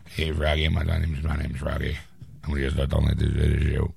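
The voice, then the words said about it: Deep-voiced little kid character. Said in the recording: “From Little Rascals... Little kid with a deep voice.”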